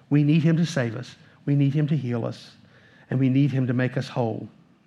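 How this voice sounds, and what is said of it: Southern American accent. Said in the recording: “listening to my voice, that we are children of the South... Maybe the accent gave us away... it's still the South”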